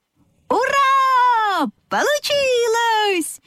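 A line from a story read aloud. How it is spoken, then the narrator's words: Animals shouting in chorus. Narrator (Russian): хором закричали лошадка, овечка и козлята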